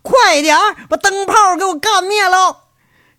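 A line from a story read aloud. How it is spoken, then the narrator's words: Cursing, startled shout. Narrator (Chinese): 赵三刀骂骂咧咧，吓一跳，喊着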